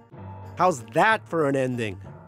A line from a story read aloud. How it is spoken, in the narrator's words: I shouted